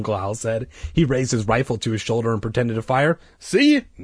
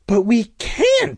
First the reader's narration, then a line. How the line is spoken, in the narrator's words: I cried